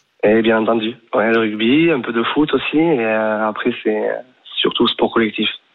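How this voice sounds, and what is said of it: Sing-song southwestern French accent. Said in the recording (French): “on entend, on devine cet accent chantant ... Boucau, c'est collé à Bayonne, ton Pays Basque”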